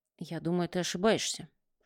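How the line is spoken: Whisper. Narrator (Russian): шепнул Бильяр

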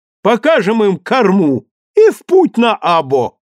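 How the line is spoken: Laughing. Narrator (Russian): Кирилл рассмеялся

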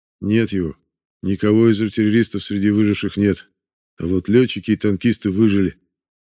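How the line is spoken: Plain. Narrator (Russian): ответил тот

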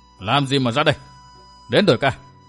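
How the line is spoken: Stern loud scolding. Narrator (Vietnamese): Trung niên hán tử nghiêm giọng nạt lớn

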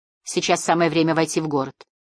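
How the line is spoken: Ordinary even tone. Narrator (Russian): сказал он своим обычным тоном

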